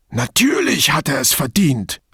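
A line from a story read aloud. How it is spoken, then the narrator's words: Hissed angrily. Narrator (German): fauchte Bianchi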